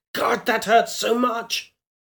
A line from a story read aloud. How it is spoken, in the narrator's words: She half shouted, half gagging, fighting to stay afloat